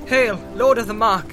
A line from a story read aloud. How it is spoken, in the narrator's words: she cried